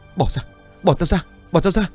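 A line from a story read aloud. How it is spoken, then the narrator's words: Screaming, waking up. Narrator (Vietnamese): Hùng hét lớn rồi bừng tỉnh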